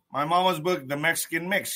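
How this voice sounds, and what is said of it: Old-fashioned 1940s-style voice. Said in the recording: “I don't know why I do that voice every time I bring her book up... they lived in the 30s and 40s and 50s, and I feel like everyone talked like that back then”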